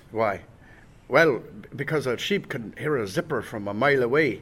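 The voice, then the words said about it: Put-on Irish accent. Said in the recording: “I'm sorry, but that's an Irish accent. That's not Scottish.”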